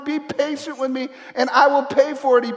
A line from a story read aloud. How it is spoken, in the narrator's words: he pleaded